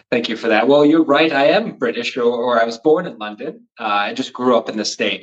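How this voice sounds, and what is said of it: American accent. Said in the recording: “I have an American accent now”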